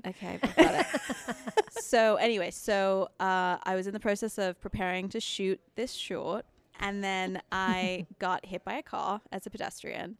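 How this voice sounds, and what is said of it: Mixed English and American accent. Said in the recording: “I also have a weird accent because I'm originally from England ... I moved to America and I was 9 ... both my parents are English and I lived in England until I was 9. So I have like a really confusing accent”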